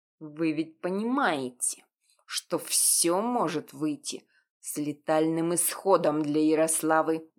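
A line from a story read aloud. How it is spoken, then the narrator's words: Through gritted teeth. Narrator (Russian): Сквозь зубы процедил Виталий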